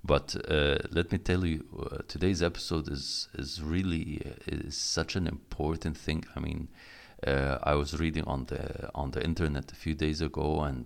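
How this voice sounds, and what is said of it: Groggy morning voice. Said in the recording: “my voice is a little bit groggy and in the morning”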